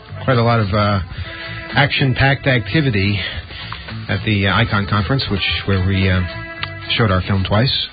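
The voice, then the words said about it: Out of breath. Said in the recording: “You seem a little out of breath. ... I am out of breath.”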